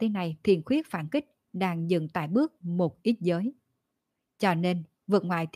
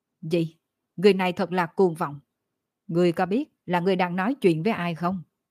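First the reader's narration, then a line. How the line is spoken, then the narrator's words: Angry. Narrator (Vietnamese): Phi ma kia giận dữ nói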